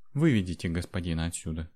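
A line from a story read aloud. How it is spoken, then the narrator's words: Quiet woman's command. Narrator (Russian): негромко приказала женщина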